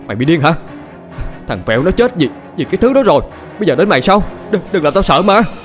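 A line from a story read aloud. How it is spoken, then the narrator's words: Frightened shout. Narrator (Vietnamese): Quẹo hét lên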